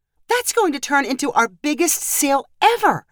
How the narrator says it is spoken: said excitedly

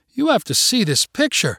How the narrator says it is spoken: she cried out to Sergio

